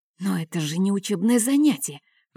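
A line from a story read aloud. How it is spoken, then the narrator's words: Whispered complaint. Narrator (Russian): пожаловался шепотом Марк Алексе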